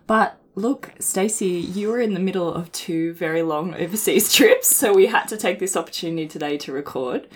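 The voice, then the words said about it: Croaky voice. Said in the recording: “my voice is a bit croaky today... I'm a little bit sick”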